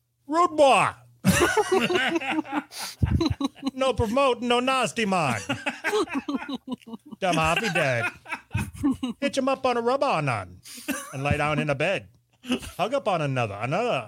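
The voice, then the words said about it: Put-on Rastafarian accent. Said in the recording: “Maybe if I tried it in a Rastafarian accent, it would be better.”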